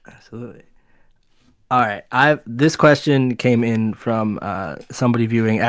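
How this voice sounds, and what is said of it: Usual voice. Nothing is said of it.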